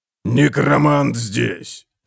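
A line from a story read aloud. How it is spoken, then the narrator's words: Growled. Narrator (Russian): прорычал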